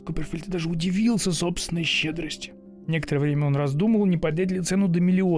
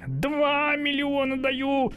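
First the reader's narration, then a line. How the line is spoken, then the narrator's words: Shouting. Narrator (Russian): закричал Скуперфильд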